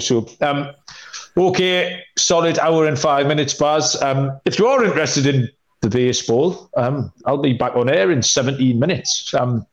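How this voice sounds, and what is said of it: London English accent. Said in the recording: “the bloke with the accent ... The bloke from London ... someone knocked a star off because of my accent”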